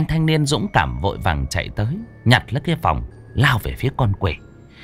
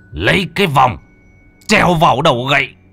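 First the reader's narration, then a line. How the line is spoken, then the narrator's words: Agonized desperate scream. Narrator (Vietnamese): Ông thầy Khương lúc này chỉ còn phần thân trên, nhưng vẫn hét lên thảm liệt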